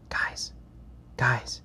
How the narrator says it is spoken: hisses

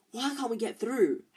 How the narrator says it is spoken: Harry hissed to Ron

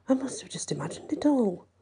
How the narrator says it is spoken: Darren mumbled to himself

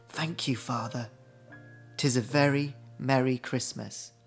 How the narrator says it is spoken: humbly whispered

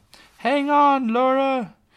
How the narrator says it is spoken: Far off, she heard Lena yell

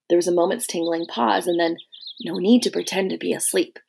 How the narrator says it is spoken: she whispered

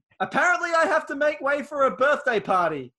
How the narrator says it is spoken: he shouted

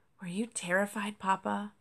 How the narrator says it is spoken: Cosmo asked quietly

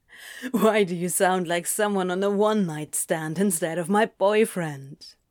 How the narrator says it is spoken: says, chuckling with amusement

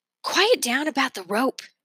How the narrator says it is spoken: Ingrid said in a half whisper

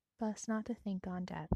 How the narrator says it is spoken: said in a whisper

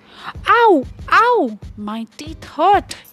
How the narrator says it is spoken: he cried

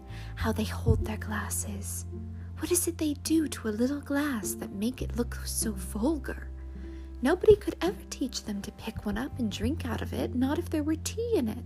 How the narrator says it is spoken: whispered

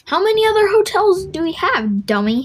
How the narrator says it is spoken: scoffed

